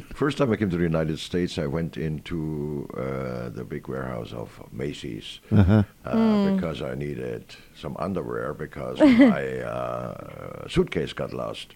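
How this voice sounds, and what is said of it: Non-native English accent. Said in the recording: “You have an accent. ... You're not from here.”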